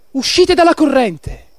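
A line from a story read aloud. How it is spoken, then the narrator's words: Shouted. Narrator (Italian): Un folto gruppo di persone su una barca gridò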